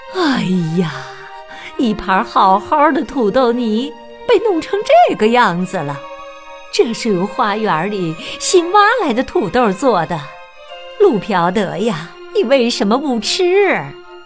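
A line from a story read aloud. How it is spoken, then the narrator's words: Sighing. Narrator (Chinese): 妈妈叹着气说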